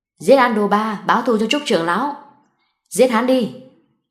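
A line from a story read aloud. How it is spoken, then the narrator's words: Loud shout. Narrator (Vietnamese): một tên hét lớn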